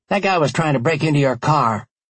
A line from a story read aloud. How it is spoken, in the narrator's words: one of the teen boys shouted to them